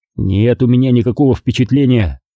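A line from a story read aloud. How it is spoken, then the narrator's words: Snapping back. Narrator (Russian): огрызнулся я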